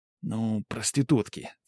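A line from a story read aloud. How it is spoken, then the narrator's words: Quiet explanation. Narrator (Russian): тихо пояснил Тимоха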